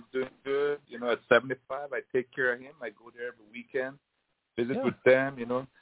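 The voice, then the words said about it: Belizean accent. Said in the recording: “speak with a Belizean accent, man. ... I can tell just by talking to you”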